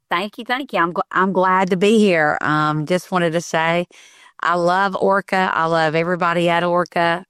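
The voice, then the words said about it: Southern drawl accent. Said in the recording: “love your accent. Just love that good Southern drawl.”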